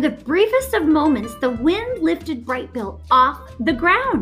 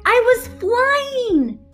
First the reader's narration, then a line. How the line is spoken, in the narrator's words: he squeaked